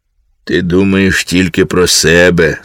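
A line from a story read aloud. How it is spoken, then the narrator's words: Stern. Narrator (Ukrainian): суворо мовив Босе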